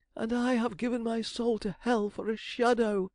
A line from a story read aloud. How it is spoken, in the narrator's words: he moaned